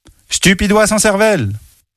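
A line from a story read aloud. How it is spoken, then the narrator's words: Old woman exclaiming. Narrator (French): s'exclama la vieille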